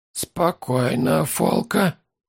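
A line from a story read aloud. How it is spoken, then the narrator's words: Quiet huntsman. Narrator (Russian): тихо сказал ловчий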